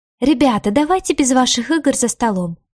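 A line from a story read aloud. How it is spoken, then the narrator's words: Exclaiming. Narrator (Russian): воскликнула Леора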